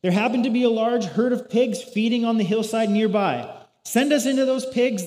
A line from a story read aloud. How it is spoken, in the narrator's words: the spirits begged